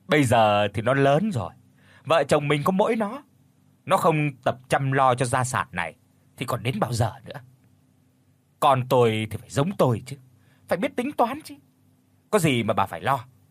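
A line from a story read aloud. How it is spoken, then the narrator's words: Slow speech after laughing. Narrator (Vietnamese): Ông Chánh cười lớn, rồi chậm rãi nói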